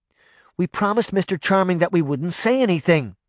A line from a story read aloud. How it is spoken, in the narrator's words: Daphne blurted out